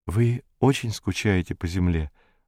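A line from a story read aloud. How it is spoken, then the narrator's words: Timid question. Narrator (Russian): робко спросила Зойка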